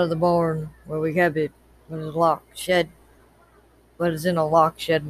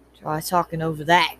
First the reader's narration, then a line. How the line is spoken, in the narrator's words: Carson growled